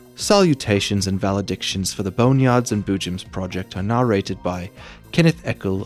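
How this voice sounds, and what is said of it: Poor put-on accent. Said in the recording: “my accent is bad”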